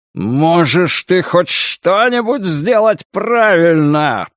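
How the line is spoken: Roared. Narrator (Russian): проревел Флэг

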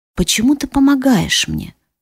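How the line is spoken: Muffled question. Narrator (Russian): спросила глухо

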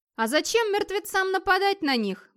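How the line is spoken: Exclaimed. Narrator (Russian): воскликнул Ярнир

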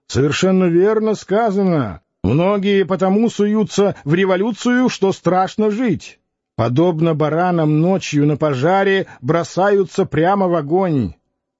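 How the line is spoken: Muffled voice shouting over noise. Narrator (Russian): Преодолевая шум, кричал из угла глуховатый голос

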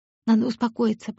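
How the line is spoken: Whispered to herself. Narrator (Russian): прошептала она себе

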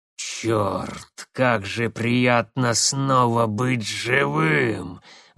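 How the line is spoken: Ecstatic growl. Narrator (Russian): восторженно прорычал он

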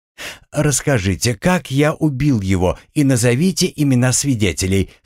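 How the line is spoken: Calm questioning. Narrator (Russian): спокойно продолжал допрос Уильям

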